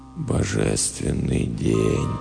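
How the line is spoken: Whispering. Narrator (Russian): прошептал Бейли

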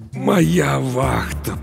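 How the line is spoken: Muffled groan. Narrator (Russian): простонал Старпом, закрывая лицо руками

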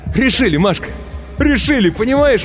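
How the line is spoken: Ecstatic shouting. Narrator (Russian): восторженно кричал он

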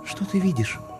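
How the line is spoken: Whispered question. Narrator (Russian): шепотом спросила она у меня

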